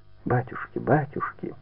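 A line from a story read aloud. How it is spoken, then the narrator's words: Whisper. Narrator (Russian): шептала она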